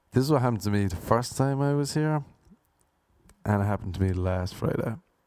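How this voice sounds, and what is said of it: Irish accent. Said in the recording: “Can't be dissing the Irish... why are you putting on that dumb fake accent?... this is how I speak... this is my voice”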